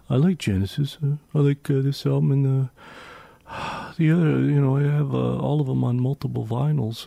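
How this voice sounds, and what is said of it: Impersonation of a friend's voice. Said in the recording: “that impersonation of Sean from memory ... who could do the same impersonation”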